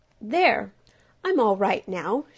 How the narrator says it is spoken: she said in a cheerful voice

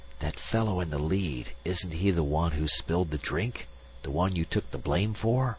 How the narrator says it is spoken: he said in a whisper

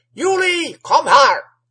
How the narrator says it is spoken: roared the old man from the well

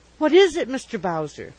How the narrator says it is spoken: she exclaimed

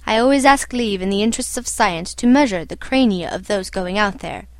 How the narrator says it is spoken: said

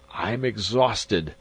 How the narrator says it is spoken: Magnan gasped

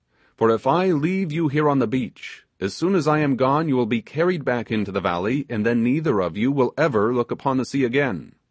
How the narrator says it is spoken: exclaimed the sailor

